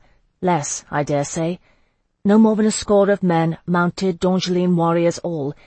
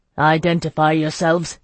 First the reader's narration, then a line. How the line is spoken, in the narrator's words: he snapped curtly